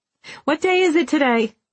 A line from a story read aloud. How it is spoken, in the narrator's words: Lucy called out to Nurse Bob